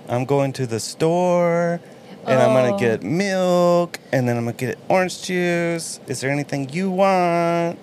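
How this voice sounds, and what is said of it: Drawn-out words at phrase ends. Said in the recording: “they drag out the last word of a sentence or a phrase ... especially when they do lists”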